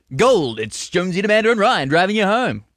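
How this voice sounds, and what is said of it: Impression of radio host Brendan Jones. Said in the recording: “What are you doing this voice for? ... that's what you sound like. I'm Brendan Jones. ... Actually, you sound good.”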